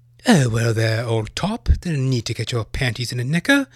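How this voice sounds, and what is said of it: Put-on posh British accent. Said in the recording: “the British accent is dog shit fucking annoying at times”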